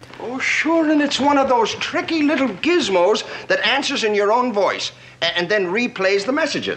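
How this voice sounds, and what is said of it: Exaggerated Irish accent. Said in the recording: “Chief O'Hara's accent. ... the Chief O'Hara accent is incredibly racist to my people ... Irish”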